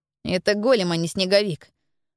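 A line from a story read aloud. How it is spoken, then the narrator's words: Grumbling. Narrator (Russian): проворчал Стефан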